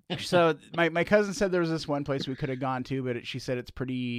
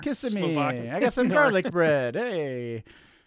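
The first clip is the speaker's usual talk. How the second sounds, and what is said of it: Put-on Italian accent. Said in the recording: “What accent was that? ... I thought it sounded Italian.”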